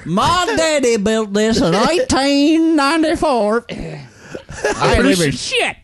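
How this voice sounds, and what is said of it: Exaggerated redneck voice. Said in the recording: “You do the best redneck voice. ... Dude, it's impressive.”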